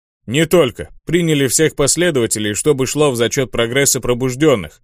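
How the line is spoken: Deep bass voice. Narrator (Russian): пробасил

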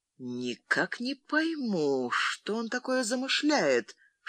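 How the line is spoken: Whispered in ear. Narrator (Russian): шепнул Фрэнсис на ухо Леонсии

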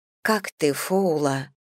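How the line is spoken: Quiet question. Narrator (Russian): тихо спросила

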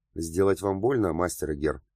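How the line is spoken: Cold question. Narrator (Russian): холодно поинтересовалась Герда

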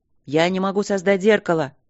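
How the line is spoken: Shouting. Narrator (Russian): крикнул второй маг

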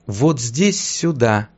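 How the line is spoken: Ghostly girl whispering. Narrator (Russian): прошептала призрачная девушка

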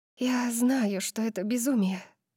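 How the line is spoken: Whisper. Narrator (Russian): прошептала я

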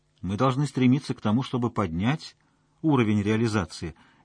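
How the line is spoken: Gentle objection. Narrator (Russian): мягко возразил Есипов

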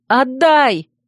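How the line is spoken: Shouted, holding back tears. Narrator (Russian): крикнула я, с трудом сдерживая слезы

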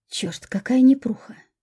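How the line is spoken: Quiet cursing. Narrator (Russian): тихонько ругался он

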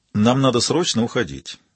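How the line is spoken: Perfectly even voice. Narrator (Russian): произнес Яго совершенно ровным голосом

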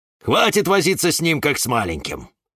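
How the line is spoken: Cactus snorting. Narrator (Russian): фыркнул кактус Кирилл

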